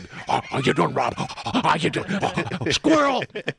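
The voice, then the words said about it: Talking like a dog. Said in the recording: “talk like a dog.”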